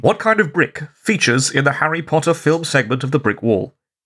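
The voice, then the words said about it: Nasal, pinched-nose voice. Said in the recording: “Are you just holding your nose? ... That's what it sounds like.”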